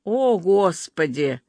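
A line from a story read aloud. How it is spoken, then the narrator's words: Sighed. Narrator (Russian): вздохнула Берта Семеновна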